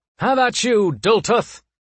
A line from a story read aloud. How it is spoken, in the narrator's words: he shouted